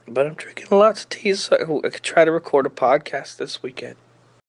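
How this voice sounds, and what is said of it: Sick, rough voice. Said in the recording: “my voice is all fucked up. I'm very sick. I'm real sick somehow ... it was so bad ... I was bad, dude.”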